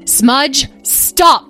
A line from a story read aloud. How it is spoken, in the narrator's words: yelled one of the 2 larger dragons as it approached